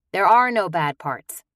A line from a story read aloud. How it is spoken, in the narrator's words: said dryly